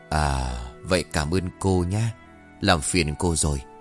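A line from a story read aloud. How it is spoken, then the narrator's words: Old man, plain. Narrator (Vietnamese): Ông cụ đáp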